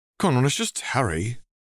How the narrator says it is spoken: Neville Longbottom sighed

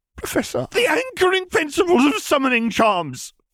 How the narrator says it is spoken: Flitwick cried

